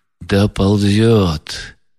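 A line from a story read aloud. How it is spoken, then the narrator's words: Sudden quiet, utterly convinced. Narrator (Russian): проговорил вдруг Рогожин тихо, но с видом величайшего убеждения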